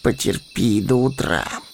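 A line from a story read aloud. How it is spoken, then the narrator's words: Displeased grumble. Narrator (Russian): недовольно проворчал Мэри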